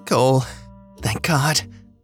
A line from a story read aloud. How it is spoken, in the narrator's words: Andy croaked